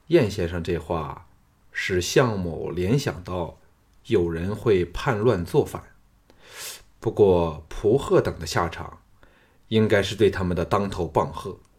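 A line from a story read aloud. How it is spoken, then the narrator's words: Calm, detached. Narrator (Chinese): 项少龙回复冷静，淡淡的说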